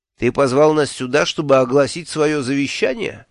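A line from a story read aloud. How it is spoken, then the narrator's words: Mocking question. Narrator (Russian): насмешливо спросил Мелифаро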